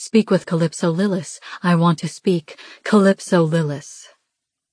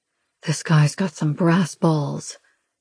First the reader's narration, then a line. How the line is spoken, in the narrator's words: he mutters under his breath